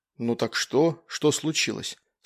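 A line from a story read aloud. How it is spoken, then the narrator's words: Plain. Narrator (Russian): спросил я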